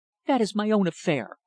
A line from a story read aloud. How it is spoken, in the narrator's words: snapped in apparent annoyance